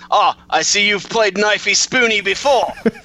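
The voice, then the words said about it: Put-on Australian accent. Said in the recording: “Great impression ... spot on Australian”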